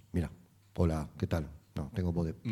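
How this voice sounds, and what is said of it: Deep radio announcer voice. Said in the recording (Spanish): “Yo a veces pongo voz de locutor”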